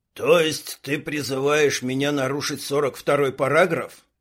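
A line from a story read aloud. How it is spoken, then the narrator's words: Grumbling. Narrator (Russian): буркнул Квас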